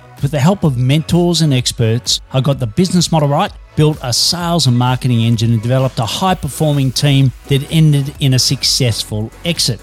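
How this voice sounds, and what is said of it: Australian accent. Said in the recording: “Detecting an accent? I'm an Aussie working globally from Melbourne, Australia.”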